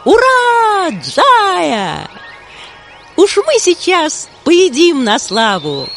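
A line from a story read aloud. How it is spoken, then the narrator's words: Cheerful shouting monkeys. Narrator (Russian): весело закричали обезьяны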